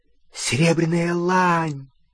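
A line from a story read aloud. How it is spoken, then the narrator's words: Excited exclamation. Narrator (Russian): взволнованно воскликнул он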